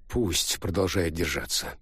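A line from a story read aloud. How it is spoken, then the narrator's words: Grumbling. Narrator (Russian): пробурчал Джа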